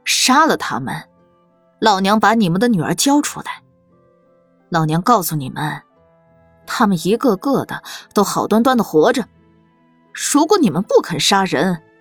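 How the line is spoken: Sinister laughing goading. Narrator (Chinese): 看热闹的掌柜夫人阴恻恻的笑了起来，教唆道

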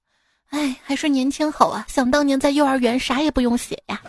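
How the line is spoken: Wistful sighing, two voices. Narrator (Chinese): 两个人在那儿感叹道

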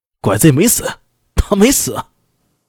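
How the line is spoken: Fierce furious shout. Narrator (Chinese): 一向温和的南九郎，双眼赤红，厉声喊道

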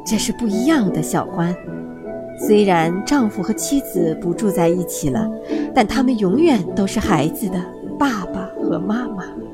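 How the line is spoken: Gentle elderly voice. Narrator (Chinese): 猫头鹰爷爷用温柔的声音对他说

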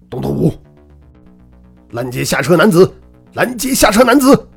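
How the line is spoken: Excited shout into microphone. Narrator (Chinese): 韩浩心中一阵狂跳，对着麦克风大喊道

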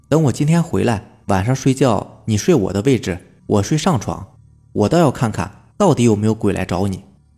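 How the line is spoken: Half-joking. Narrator (Chinese): 半开玩笑的对我弟说

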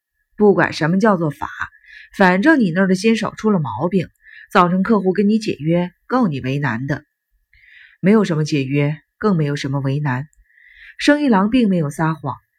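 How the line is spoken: Cold sneer. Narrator (Chinese): 平泉冷笑一声

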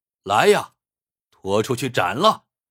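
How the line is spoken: Roaring. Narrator (Chinese): 皇帝大吼

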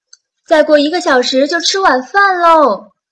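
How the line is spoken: Grandmother calling out. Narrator (Chinese): 奶奶在厨房里喊道

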